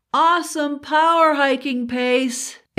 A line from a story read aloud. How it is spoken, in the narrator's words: exclaims a man